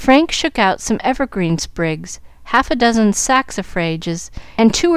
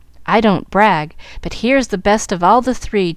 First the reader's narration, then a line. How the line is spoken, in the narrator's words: chuckled Jack, trying to look brave and gay